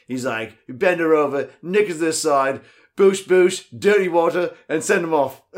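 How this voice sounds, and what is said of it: Good English accent impression. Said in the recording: “he grew up in England ... That was a good accent.”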